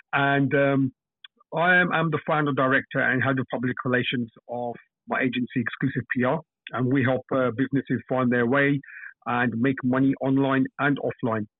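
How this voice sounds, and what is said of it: London English accent. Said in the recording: “I'm from London, UK. You probably can tell from my accent.”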